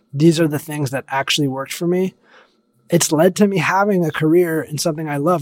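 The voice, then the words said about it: Slightly hoarse voice. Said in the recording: “I've been talking your ear off and my voice is a little hoarse at this point”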